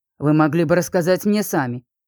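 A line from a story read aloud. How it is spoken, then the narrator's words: Angry. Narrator (Russian): сердито произнес Мэрик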